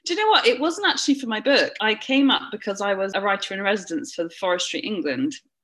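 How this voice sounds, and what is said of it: Southern English accent. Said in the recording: “As you can tell from my accent, I am very southern.”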